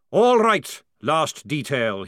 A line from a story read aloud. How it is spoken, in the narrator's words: he bellowed